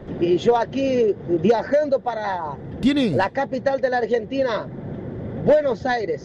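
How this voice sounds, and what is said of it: Unusual foreign accent, possibly Brazilian. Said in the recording (Spanish): “tiene un acento muy raro ... Brasilero.”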